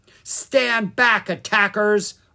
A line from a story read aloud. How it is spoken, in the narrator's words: Aruna yelled